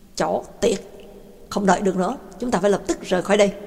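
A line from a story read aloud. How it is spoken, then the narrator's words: Angry. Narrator (Vietnamese): Ba Tang tức giận nói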